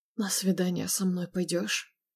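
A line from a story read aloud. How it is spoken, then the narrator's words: Hot close whisper. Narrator (Russian): Его шепот обжег шею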